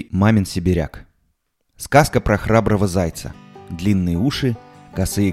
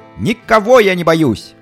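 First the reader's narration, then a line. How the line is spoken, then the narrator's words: Loud shout through forest. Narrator (Russian): крикнул он на весь лес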